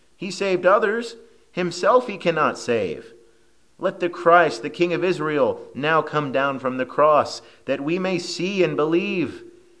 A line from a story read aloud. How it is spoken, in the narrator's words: the chief priests, mocking him among themselves with the scribes, said